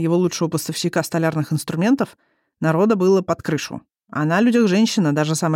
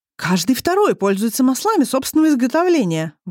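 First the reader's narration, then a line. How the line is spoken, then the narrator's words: Indignant manufacturer holding forth. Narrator (Russian): возмущенно вещал фабрикант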